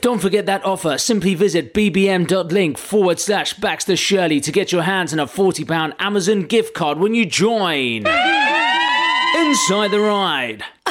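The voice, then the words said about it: Garage MC style delivery. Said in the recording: “In your best Garage MC voice ... you used to be a Garage MC and you're really good.”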